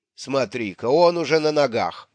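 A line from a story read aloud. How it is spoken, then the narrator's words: Booming drone. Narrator (Russian): прогудела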